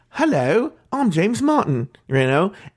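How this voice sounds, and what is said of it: Put-on British accent. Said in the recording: “he would walk around with a British stomach. I mean, a British stomach. No, a British accent.”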